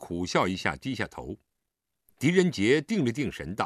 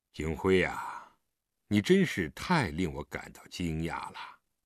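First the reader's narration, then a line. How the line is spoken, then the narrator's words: Murmuring. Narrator (Chinese): 许久，他才喃喃地说出一句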